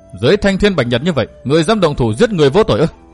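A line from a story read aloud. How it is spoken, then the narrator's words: Cold shout. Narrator (Vietnamese): Hắn bèn lạnh lùng hét nói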